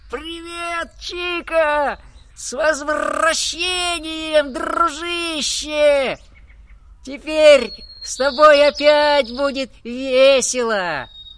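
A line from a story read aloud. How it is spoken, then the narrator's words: Joyful full-throated shout. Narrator (Russian): Особенно обрадовался попугай Ара, закричавший во все горло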